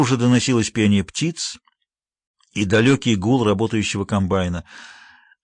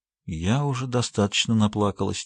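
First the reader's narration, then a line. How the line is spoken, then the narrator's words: Quiet reply. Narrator (Russian): тихо ответила Сьюзи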